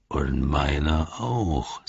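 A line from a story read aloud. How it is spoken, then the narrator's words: Growling creature. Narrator (German): sagte der Knurrer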